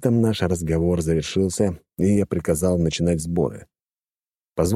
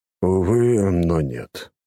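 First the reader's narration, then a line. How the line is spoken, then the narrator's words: Sigh. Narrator (Russian): вздохнул он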